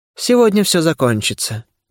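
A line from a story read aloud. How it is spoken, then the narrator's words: Unexpectedly calm. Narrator (Russian): неожиданно спокойно произнес Шхарас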